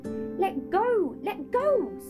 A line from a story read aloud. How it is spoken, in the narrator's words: screamed Polly